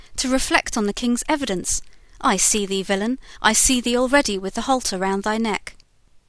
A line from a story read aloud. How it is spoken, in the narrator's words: exclaimed the judge